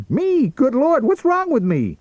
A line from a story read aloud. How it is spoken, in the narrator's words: shrieked